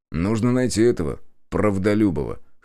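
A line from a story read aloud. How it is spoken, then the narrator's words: Snorting. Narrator (Russian): хмыкнул я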